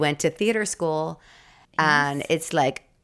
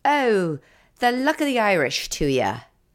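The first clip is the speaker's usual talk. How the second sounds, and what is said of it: Bad put-on Irish brogue. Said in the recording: “I can do an Irish brogue that will put you on your ass ... That's terrible.”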